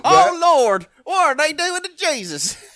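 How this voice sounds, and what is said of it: Put-on Deep South American accent. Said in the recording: “folk from the Deep South”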